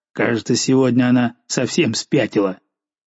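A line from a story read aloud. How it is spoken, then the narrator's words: Angry muttering. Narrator (Russian): Жульен злобно бормоча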